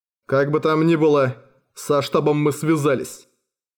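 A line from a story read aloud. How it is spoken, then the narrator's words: Plain. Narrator (Russian): сказал Николай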